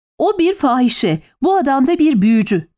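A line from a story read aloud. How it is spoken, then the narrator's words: Shouting. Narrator (Turkish): diye bağırdı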